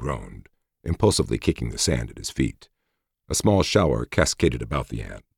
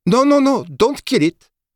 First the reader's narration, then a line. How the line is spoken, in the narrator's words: cried the colonel